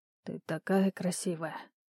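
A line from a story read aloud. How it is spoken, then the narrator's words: Breathy male voice. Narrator (Russian): выдохнул мужчина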